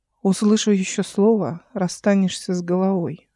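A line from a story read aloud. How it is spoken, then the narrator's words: Calm. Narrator (Russian): спокойно сказала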